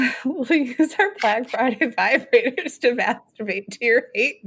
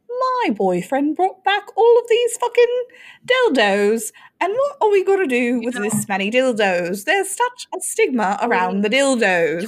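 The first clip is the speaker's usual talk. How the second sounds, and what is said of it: Put-on British accent. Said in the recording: “25% of our listeners come from the UK. And I believe we've now lost 25% of our listeners. ... If my accent is on point, please let me know. And if it's bad”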